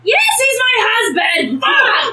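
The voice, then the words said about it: Screaming. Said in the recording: “sorry for screaming.”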